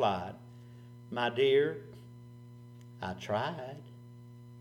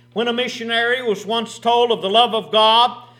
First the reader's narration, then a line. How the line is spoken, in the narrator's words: the mother exclaimed